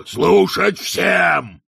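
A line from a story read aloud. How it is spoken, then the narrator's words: Barking. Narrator (Russian): рявкнул Детрит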